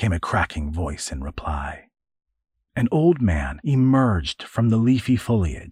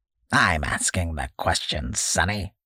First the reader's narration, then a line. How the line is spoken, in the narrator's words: cackled the old leather bag man